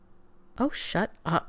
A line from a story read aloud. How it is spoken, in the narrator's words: McKay muttered